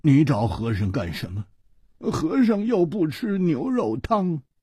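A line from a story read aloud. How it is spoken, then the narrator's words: Sighing, glum. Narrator (Chinese): 和尚叹了一口气，他苦着脸说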